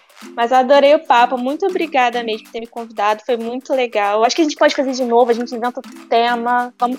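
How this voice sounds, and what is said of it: Carioca Brazilian Portuguese accent. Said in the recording (Portuguese): “a dela tu sotaque carioquês ... nosso contraste de sotaque”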